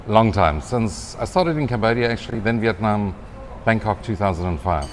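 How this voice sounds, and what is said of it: South African accent. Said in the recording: “you've still got a South African accent.”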